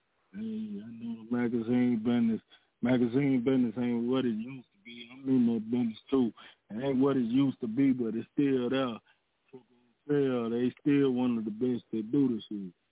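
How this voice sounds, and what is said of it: Southern US accent, Georgia. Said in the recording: “I love your accent... You hear that Georgia accent... you sound a little more southern than North Carolina”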